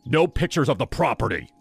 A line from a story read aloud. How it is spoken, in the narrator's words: His tone was sharp, nothing like the charming host from the night before